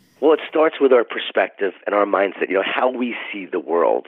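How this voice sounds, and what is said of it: Scratchy, deep, hoarse voice. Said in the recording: “probably hear it in my voice... I don't normally sound like this... this Barry White... I got the scratchy voice... I don't usually have this kind of voice... I don't have this great voice today”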